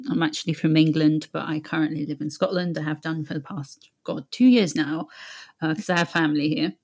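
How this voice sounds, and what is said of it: British accent. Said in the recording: “As you can hear, I have a British accent.”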